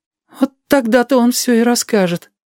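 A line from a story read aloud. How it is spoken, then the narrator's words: Timid sigh. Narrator (Russian): съеженно вздохнул Бомзик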